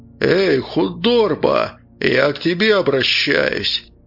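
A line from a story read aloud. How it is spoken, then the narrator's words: Menacing shout. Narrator (Russian): Грозно крикнул бородач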